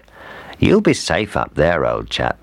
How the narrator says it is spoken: said the fox

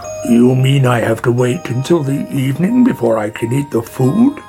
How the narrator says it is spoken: he grumbled

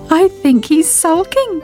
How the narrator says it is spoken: giggled Sybil

